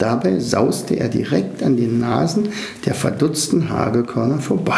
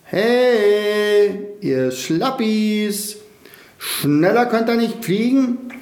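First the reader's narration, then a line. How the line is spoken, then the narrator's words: Bold call. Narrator (German): Verwegen rief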